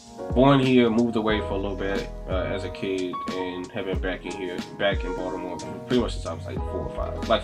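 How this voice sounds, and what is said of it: Baltimore accent. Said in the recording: “In case you haven't heard it in my accent, I'm from Baltimore.”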